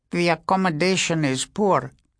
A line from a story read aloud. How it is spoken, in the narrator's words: was the reply in a thin, fluting voice